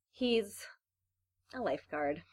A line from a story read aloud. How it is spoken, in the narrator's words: Claire said, dreamily